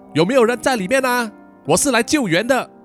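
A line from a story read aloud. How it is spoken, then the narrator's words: Loud shout. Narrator (Chinese): 再大声的喊了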